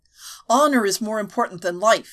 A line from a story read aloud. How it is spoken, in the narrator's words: he answered hotly